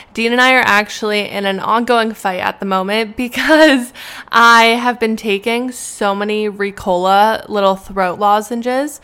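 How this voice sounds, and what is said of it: Sick, slightly hoarse voice. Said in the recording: “I'm a little ill. I'm a little sick. So if you can hear it in my voice”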